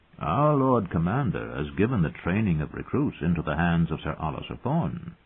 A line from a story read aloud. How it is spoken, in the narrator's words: the maester said gently